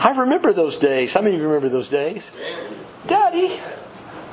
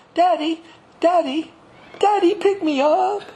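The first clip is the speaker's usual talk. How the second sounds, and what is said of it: Imitates a small child's voice. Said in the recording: “I hear this little baby voice say”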